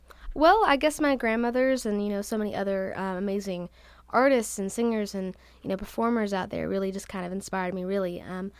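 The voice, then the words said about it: Slight Southern twang. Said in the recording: “I heard a little bit of that Southern ... twang, ... in there.”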